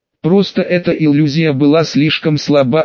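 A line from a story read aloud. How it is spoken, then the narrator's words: Plain. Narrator (Russian): ответил ему второй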